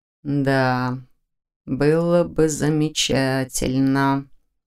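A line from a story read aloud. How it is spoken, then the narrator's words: Thoughtful drawl. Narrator (Russian): задумчиво протянул Нев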